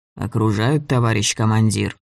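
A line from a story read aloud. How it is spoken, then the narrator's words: Calm. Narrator (Russian): сказал спокойно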